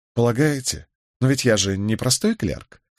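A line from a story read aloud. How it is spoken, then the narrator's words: Ironic objection. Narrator (Russian): столь же ироническим тоном возразил Николас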